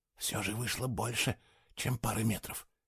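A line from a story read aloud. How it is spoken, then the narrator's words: Apologetic whisper. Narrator (Russian): извиняющимся тоном прошептал Фло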